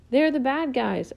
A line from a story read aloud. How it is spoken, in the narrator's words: a girl's voice shouted